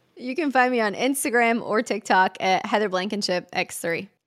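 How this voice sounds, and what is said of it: Distinctive regional accent. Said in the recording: “really cool accent”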